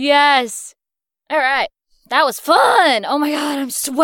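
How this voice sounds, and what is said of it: Usual voice. Nothing is said of it.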